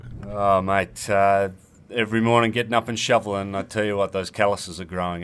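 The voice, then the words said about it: Australian accent. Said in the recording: “you may be able to tell by ... accent, he's not a local Canadian guy ... you Australian fellow”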